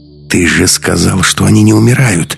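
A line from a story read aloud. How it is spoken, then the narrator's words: Hissing. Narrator (Russian): зашипела Маруся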